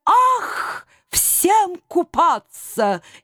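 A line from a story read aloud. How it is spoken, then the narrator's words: Delighted exclamation. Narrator (Russian): неожиданно восторженно воскликнул голубой эльф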